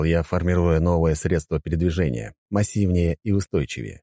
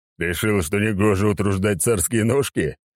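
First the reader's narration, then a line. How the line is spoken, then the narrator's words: Chuckling. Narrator (Russian): хохотнул Сигизмунд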